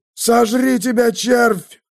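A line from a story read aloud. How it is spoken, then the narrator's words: Growled. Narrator (Russian): зарычал предмет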